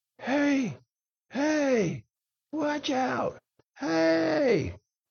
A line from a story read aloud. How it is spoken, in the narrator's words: he started yelling